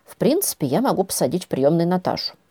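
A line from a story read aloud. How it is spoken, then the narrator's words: Mutter. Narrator (Russian): бормотал Тигран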